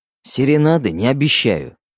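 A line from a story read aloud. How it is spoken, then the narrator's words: Wry snort. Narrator (Russian): хмыкнул Фуллер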